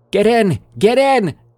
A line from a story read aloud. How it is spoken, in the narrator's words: screamed